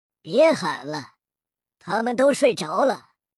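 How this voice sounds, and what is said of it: Cold, eerie, ghostly voice. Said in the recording (Chinese): “一个阴冷的声音响起……这声音如同鬼魅一般，仿佛是飘进来的”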